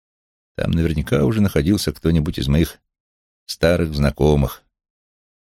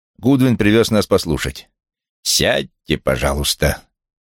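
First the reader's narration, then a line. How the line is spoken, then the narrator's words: Cold. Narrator (Russian): Холодно повторил Вулф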